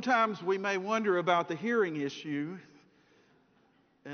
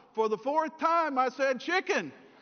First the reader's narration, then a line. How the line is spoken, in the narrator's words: yelled